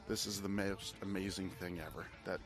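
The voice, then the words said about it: Weird put-on British accent. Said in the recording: “I somehow got into a weird British accent.”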